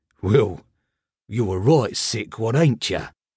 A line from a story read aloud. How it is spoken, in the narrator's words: Finally he grunted